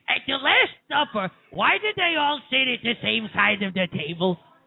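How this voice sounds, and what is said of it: Imitates another person's voice. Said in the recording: “do a little Gilbert for us ... I think it's pretty good, right?”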